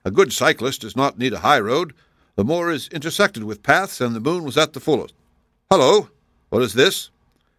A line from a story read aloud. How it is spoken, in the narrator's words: said Holmes impatiently